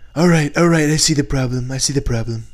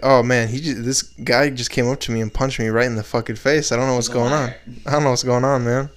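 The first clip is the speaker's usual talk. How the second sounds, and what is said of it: Imitates another person's voice. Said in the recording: “good impression”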